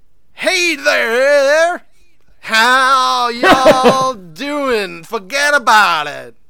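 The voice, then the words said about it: Mock broad generic American accent. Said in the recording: “when English actors do just like a broad, generic American accent ... Like, you can't just be from everywhere.”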